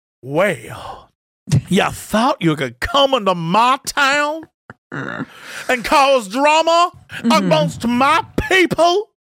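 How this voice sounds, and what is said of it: Put-on Southern accent. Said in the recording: “I'll have a southern accent”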